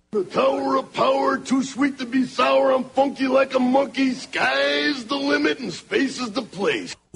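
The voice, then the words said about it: Macho Man Randy Savage impression. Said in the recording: “that Macho Man impression ... Trying to get that Macho Madness voice back.”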